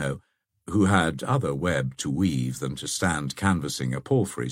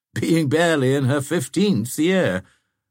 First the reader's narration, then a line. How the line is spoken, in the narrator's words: said the old man, laughing at his own jest